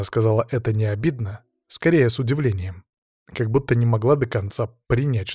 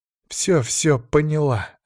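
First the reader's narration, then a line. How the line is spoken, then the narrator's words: Resigned sigh. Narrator (Russian): Алина сдалась и вздохнула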